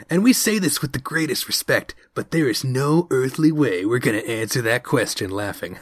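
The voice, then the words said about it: Imitates another person's voice. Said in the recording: “Is that what he sounds like? I hope he sounds like that. ... you're doing a decent impression.”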